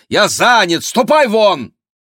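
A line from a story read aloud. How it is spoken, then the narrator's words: Desperate shout. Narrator (Russian): Питер с отчаянием выкрикнул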